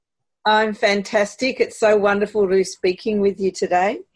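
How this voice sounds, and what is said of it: Australian accent. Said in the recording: “I love your accent ... I'm from Melbourne, Australia”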